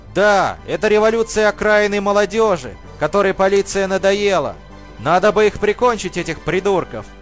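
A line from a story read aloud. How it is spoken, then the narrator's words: Shouting. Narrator (Russian): крикнул кто-то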